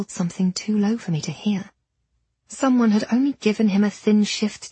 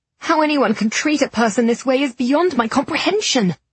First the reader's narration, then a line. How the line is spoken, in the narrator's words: I snarled